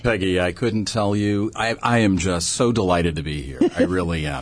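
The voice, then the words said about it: Good radio voice. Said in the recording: “has a good radio voice. ... Gosh, you got a good voice. ... You got a good voice.”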